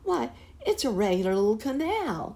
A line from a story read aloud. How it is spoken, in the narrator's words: exclaimed a second boy